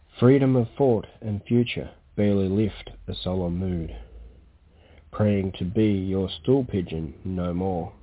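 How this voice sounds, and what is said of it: Clear, well-enunciated Australian accent. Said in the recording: “I'm guessing by that accent I was correct down in the great continent ... of Australia ... not only is it a wonderful accent, but he's very clear ... he enunciates so”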